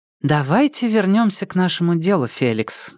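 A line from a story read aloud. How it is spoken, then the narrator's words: Soft suggestion. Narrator (Russian): мягко предложила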